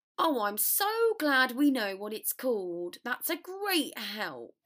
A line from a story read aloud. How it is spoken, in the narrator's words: snarled Weasley